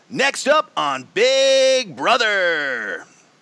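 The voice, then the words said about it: TV announcer voice impression. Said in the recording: “my impression of the guy, the announcer”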